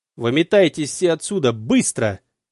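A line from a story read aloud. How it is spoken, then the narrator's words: Yelled. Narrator (Russian): заорал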